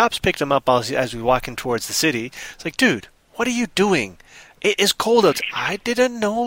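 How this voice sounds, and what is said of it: Usual voice. Nothing is said of it.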